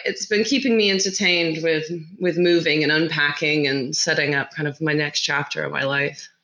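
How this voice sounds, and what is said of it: American-sounding accent. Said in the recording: “might hear your accent and imagine that you're American”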